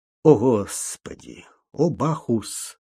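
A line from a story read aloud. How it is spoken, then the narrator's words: Muttering. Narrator (Russian): пробормотал он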